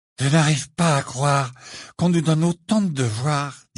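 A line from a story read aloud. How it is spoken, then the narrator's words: Said despairingly. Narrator (French): dit Ron d'un ton désespéré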